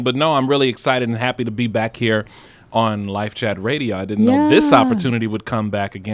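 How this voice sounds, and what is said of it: Smooth, polished radio announcer voice. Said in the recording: “I love how ... radio voice comes on when the microphone is on ... I can't even impersonate it. I can't. It's its own entity.”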